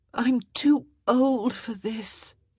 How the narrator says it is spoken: she moaned, because she was

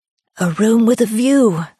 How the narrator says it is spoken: my mother exclaimed, though she was too weak

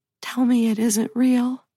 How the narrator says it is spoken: She whispers

